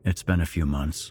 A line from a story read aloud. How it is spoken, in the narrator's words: the detective said, flatly